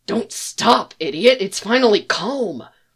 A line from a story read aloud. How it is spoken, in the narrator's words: he hisses